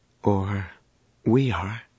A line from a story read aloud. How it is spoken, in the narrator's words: Danny said gravely